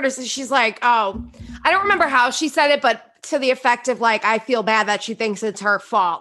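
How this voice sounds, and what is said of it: Accent sounding like Margaret. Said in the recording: “you kind of sound like Margaret ... your accent is, like, very... So funny. When you start, like, talking like her, you kind of slip into it a little bit”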